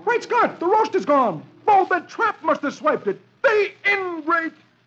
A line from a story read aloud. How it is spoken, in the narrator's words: He sees the bare table and exclaims